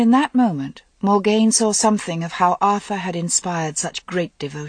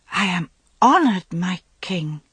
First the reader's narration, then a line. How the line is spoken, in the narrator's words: Owain stammered, his face glowing